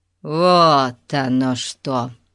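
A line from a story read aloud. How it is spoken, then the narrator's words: Drawling. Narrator (Russian): Протянул краснолицый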